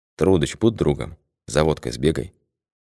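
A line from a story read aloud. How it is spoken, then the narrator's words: Quiet request. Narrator (Russian): Анатолич тихо попросил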